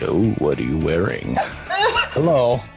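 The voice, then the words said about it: Put-on sexy voice. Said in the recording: “sexy voice. What's your best sexy voice?”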